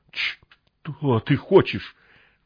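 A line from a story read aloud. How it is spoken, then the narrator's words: Trembling voice, asking. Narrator (Russian): дрожащим голосом спросил сталкер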